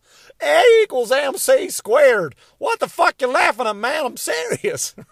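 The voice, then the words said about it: Einstein with an Alabama accent. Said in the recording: “what if Albert Einstein was from Alabama”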